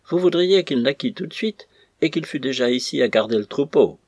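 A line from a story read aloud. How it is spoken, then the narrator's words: Laughing exclamation. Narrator (French): s'écria Mathieu en riant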